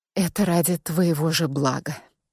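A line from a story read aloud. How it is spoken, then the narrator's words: Quiet. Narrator (Russian): тихо проговорила я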